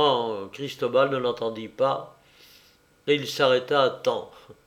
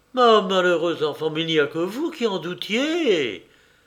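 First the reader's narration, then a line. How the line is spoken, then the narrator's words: Exclaiming together. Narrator (French): s'écrièrent-elles ensemble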